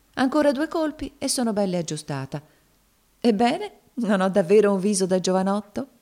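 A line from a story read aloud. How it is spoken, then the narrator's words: Laughing, embarrassed question. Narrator (Italian): domandò il marito, ridendo e arrossendo al tempo stesso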